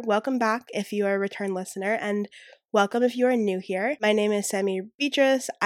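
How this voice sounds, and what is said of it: Slightly altered, breathless voice. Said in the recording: “I'm currently getting over a cold, and so I still have a cough ... my voice may sound a little bit different ... I get out of breath very easily”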